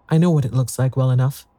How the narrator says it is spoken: said Caroline

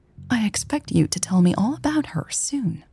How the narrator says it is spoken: Millie said softly

